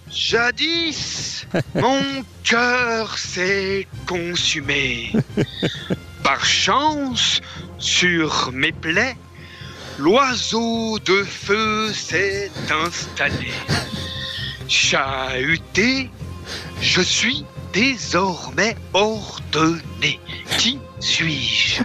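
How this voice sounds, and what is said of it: Impression of the Père Fouras character. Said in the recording (French): “l'imitation du père Fouras”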